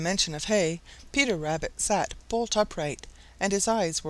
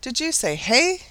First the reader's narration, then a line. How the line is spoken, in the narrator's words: he exclaimed